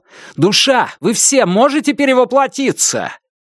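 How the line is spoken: Shouted question. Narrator (Russian): Лун крикнул

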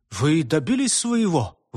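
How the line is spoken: Excited exclamation. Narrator (Russian): воскликнул он, с волнением ожидая ответа

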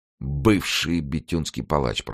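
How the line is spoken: Thoughtful mumble. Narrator (Russian): пробормотал Гримо, напрягая память

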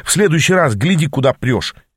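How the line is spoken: Angry bark. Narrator (Russian): сердито гаркнул я

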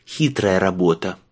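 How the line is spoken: Breathed out. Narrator (Russian): выдохнул он

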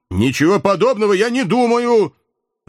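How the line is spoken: Flushed young man barking sharply. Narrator (Russian): резко рявкнул покрасневший молодой человек

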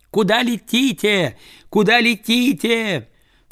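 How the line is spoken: Woman worker shouting. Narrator (Russian): Работница, сидевшая ближе всех к окну, закричала

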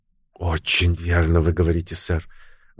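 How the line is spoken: Sighing agreement. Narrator (Russian): вздохнув, согласилась миссис Пирс

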